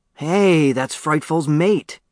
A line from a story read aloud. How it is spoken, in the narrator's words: exclaimed